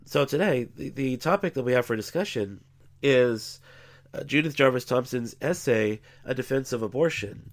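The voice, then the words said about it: Congested, slightly off voice. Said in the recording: “I'm not exactly feeling up 100% here ... I'm still kind of congested and uh, my voice isn't back to 100%, so I probably sound a little bit funny”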